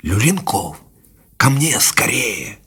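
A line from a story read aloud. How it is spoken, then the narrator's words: Quiet whisper. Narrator (Russian): Позвал тихим шепотом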